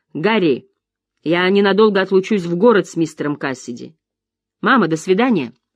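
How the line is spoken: Shouting. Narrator (Russian): крикнула

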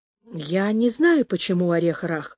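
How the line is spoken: Muttering. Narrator (Russian): пробормотал

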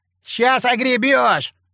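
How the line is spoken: Shout. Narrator (Russian): крикнул заводила

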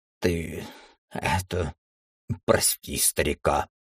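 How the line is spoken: Muttering under breath. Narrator (Russian): пробурчал он себе под нос

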